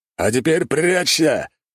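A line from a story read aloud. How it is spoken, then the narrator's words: Roaring barbarian. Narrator (Russian): взревел варвар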